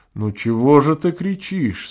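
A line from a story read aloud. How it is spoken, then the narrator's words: Calm. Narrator (Russian): спокойно сказал Овсянников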